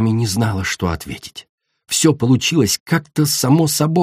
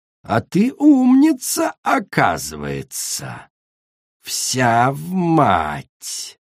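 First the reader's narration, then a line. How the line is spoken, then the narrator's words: Angry hiss. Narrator (Russian): Королева Коралл злобно зашипела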